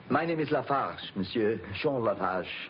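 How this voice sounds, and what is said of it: French accent. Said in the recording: “He's got a French accent”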